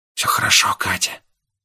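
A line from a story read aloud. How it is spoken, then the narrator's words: Whisper. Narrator (Russian): прошептал я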